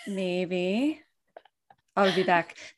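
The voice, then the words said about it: Bad robotic movie-star impression. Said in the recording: “Oh, that's like a robot, but that, kind of like Arnold ... my Arnold Schwarzenegger impersonation ... That was really bad.”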